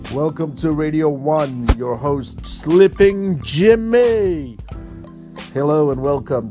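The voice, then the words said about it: Radio announcer voice. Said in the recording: “This was my radio voice”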